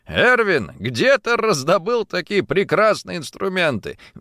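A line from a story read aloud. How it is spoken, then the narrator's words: Laughing exclamation. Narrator (Russian): Смеясь, воскликнул герцог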